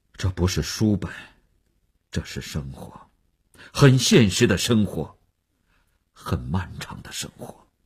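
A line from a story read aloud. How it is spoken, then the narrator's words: Sighing, defensive. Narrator (Chinese): 只能叹息着维护自己的立场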